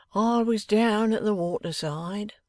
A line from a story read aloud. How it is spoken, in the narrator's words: said Venus, mournfully